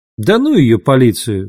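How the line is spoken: Laughing. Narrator (Russian): засмеялась Лавиния

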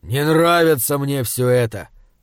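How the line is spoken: Grumbling. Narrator (Russian): проворчал он

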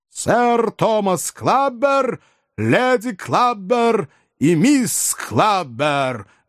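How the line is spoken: Booming footman's announcement. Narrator (Russian): громовым голосом провозгласил лакей

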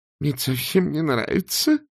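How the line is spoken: Groaning. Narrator (Russian): простонал Артур

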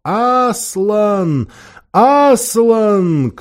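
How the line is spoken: Hoarse, creaky, singsong voices. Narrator (Russian): Кто хриплым, кто скрипучим, кто певучим голосом

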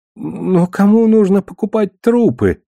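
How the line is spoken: Whining. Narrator (Russian): заскулил Шет

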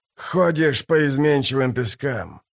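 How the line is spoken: Sighing. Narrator (Russian): вздохнул Бальт

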